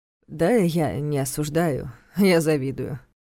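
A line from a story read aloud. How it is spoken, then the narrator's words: Amused snort. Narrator (Russian): хмыкнул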